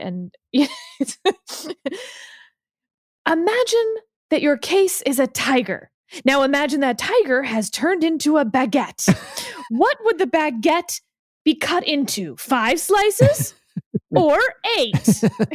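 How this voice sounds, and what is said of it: Imitates another person's voice. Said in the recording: “best Breyer impression ... he can do the voice better”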